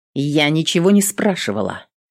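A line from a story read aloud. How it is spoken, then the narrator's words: Irritated blurt. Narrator (Russian): раздраженно выпалила воительница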